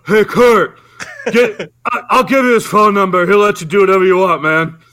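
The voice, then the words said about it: Poor imitation of another person's voice. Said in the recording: “That was one of the worst Sylvester Stallone imitations I've ever heard of in my life ... why is Napoleon Dynamite calling Kurt Russell?”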